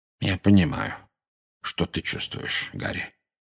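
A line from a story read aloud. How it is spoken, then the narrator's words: Very quiet. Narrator (Russian): очень тихо произнес Дамблдор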